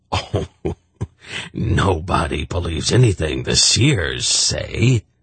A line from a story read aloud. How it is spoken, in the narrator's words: Sinji scoffed